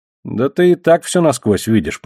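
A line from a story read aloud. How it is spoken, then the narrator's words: Grumbling. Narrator (Russian): проворчал я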